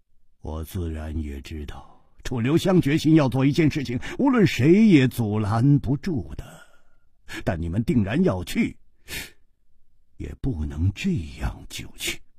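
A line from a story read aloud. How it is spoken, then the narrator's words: Sighing. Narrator (Chinese): 季冰燕叹道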